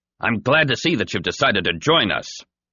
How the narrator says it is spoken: a voice called out

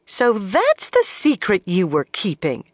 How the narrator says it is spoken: she exclaimed

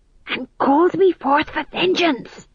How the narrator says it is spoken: hissed Tom John

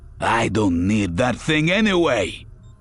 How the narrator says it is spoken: Voistock snarled

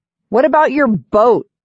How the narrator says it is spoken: I shout to Dale

